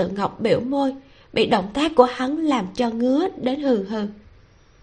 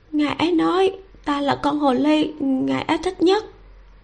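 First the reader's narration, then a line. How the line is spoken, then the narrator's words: Flustered stammering. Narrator (Vietnamese): Lâu Tự Ngọc hoảng hốt, nàng lắp bắp mở miệng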